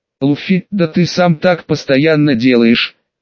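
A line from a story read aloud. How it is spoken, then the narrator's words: Heavy sigh. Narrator (Russian): тяжело вздохнул Джонни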